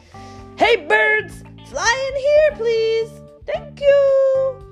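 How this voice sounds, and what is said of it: Yelling loudly. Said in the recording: “He's yelling at the birds”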